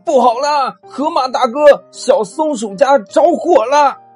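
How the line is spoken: Sudden loud shout. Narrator (Chinese): 突然呢，足球小弟大喊道

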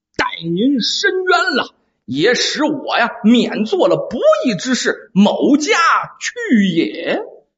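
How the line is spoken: Stern sharp voice. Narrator (Chinese): 那个人呢，厉声说道

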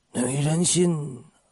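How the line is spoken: Long sigh. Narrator (Chinese): 黄金荣长长的叹息一声

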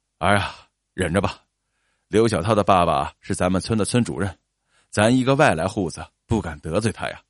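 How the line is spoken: Sighing. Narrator (Chinese): 叹了一口气

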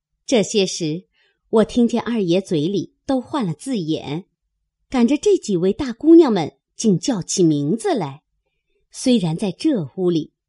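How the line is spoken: Laughing. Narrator (Chinese): 林之孝家的又笑道

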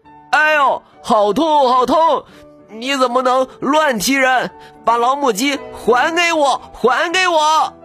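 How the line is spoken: Cursing and shouting. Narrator (Chinese): 小山子 又骂又喊

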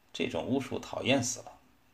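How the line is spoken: Woman's soft mutter. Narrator (Chinese): 一个妇女轻声细气地咕哝说

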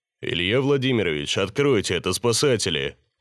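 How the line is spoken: Deep male voice outside. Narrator (Russian): Донеслось снаружи мужским басом

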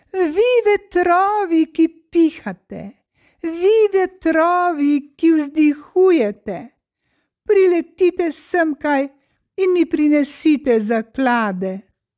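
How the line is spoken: Small frog calling out. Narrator (Slovenian): Mala žaba pa je zaklicala

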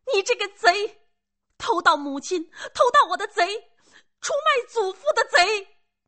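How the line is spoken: Child shouting. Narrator (Chinese): 孩子……又喊

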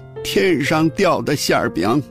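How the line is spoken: Smiling old woman. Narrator (Chinese): 老太太抿嘴一笑，说

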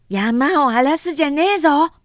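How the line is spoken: Harsh, angry young woman yelling. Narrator (Japanese): トゲトゲしい叫び声 二十歳ばかりになる百姓の娘 何かを叩きつけるような調子で怒鳴った

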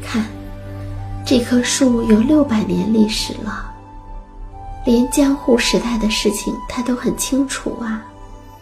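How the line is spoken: Admiring exclamation. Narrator (Chinese): 他会感叹

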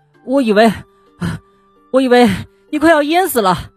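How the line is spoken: Breathless. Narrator (Chinese): 蹦蹦气喘吁吁的说

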